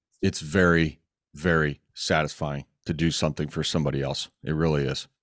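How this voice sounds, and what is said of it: Choked-up, emotional voice. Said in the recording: “almost a little choked up”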